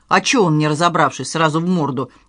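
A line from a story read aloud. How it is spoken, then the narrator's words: Offended female voice. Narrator (Russian): обиженно сказала она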